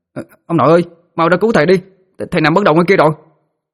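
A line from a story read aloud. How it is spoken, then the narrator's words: Shouting. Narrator (Vietnamese): nó la lên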